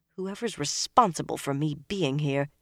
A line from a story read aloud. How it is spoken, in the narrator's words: she muttered